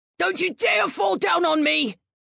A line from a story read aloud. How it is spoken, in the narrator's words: his friend shouted